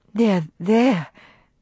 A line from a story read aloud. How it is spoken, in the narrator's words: soothingly